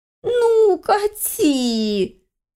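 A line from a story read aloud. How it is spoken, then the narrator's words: Wailed. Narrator (Russian): взвыла суккуба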